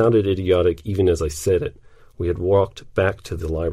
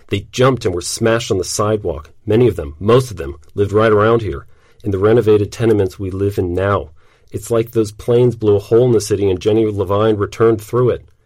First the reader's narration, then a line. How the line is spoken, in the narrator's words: Her voice tightened as she said